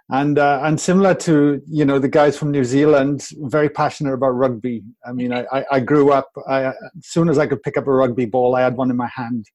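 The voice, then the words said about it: Welsh accent. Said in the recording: “as you can tell, I have a very tropical accent. I'm from Wales, all the way from the UK.”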